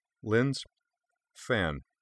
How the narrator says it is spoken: Kaname said too calmly

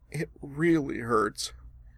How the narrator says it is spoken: said in a voice not far from a whimper

